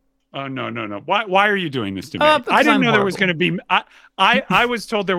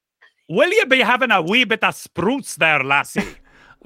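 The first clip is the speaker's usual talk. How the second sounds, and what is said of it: Put-on Scottish accent. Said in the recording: “could you do a Scottish accent for me ... Let's hear your Scottish accent.”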